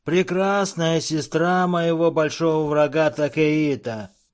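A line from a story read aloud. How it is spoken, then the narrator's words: Sugary unctuous voice. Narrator (Russian): произнес он елейным голоском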